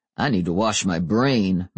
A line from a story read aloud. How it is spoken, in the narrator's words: muttered Daryl